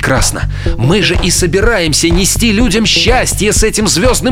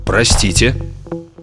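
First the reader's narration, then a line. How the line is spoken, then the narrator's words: Plain. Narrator (Russian): сказал Фред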